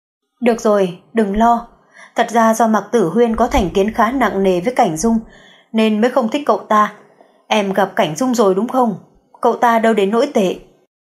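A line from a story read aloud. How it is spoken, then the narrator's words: Gentle. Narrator (Vietnamese): Anh dịu dàng nói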